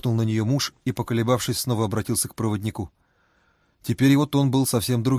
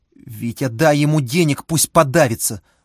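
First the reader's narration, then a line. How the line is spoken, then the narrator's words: Tearful woman shouting. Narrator (Russian): сквозь слезы выкрикнула женщина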